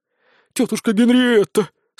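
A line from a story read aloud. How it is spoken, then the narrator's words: Moaning, young wizard. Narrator (Russian): стонал юный волшебник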